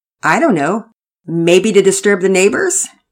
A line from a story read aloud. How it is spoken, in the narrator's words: Daddy Peters chuckled